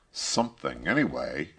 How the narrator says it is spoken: grumbled the first robber

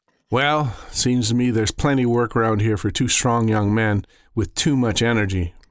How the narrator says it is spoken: Ma said

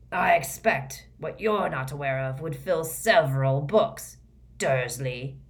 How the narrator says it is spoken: growled

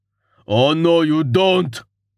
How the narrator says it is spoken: Hagar shouted

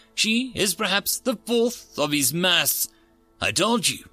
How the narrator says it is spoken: Chief Engineer said cheerfully

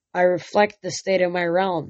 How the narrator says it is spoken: he said

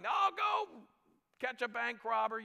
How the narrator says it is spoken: somebody's yelling

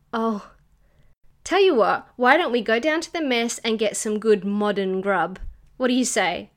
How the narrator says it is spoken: She sighed and smiled back at him

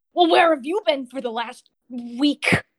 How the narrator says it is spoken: he kind of snaps

